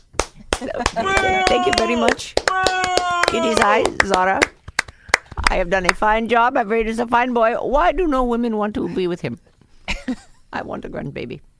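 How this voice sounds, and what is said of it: Impersonation of a friend's mother. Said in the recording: “impersonation of Hooman's mom”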